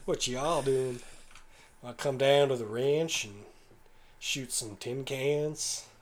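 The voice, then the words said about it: Put-on Southern American accent. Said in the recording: “Maybe I should just start doing the southern accent. ... Hey, Mr. Southerner”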